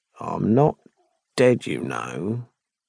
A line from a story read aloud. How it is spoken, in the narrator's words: murmured